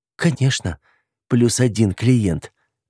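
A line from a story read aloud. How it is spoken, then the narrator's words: Trembling voice. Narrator (Russian): ответила дрожащим голосом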